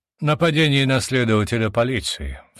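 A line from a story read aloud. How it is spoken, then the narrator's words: Sigh. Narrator (Russian): вздохнул тот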